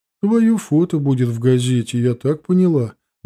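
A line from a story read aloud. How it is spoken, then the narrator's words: Uncertain. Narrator (Russian): неуверенно сказала бабуля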